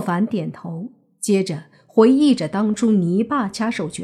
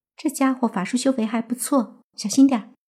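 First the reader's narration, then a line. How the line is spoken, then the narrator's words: Quiet warning. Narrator (Chinese): 林希月见状，小声提醒莫凡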